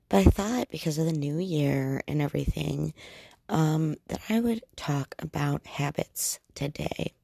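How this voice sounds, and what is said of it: Voice sounds a bit weird. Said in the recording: “passed along a cold to me, so if my voice sounds weird”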